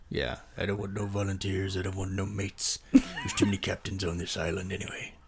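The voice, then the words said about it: Imitates a film character's voice. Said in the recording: “you were going to do a Quint impression”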